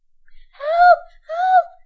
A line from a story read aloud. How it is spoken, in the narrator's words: cried Jack